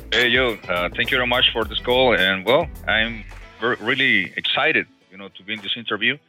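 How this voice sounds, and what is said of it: Mexican Spanish accent in English. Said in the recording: “As you might be able to tell from his accent... He is from Mexico”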